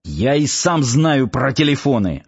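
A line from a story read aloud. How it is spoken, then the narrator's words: Snapped. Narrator (Russian): огрызнулся Ярчук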